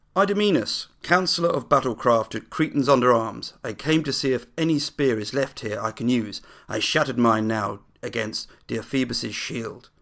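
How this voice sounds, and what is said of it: Dramatic theatrical reading voice. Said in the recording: “my best dramatic voice... Not quite Rada standards just yet”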